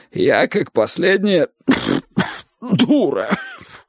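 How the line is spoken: Coughing, throaty creak. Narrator (Russian): Она вновь зашлась кашлем и гортанно проскрипела

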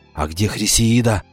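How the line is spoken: Whispered question. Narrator (Russian): шепотом спросил он у Кикахи

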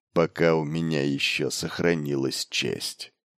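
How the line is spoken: Muttering. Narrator (Russian): пробормотал Батари

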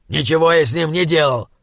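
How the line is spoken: Indignant snap. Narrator (Russian): возмущенно огрызнулся он

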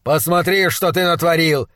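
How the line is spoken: Shouted. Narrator (Russian): закричал он

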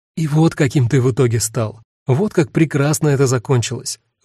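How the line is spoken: Overly enthusiastic exclamation. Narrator (Russian): воскликнула Цвета, от избытка энтузиазма

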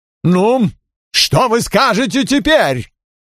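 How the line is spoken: Sudden furious bark. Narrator (Russian): Озгуд вдруг яростно рявкнул

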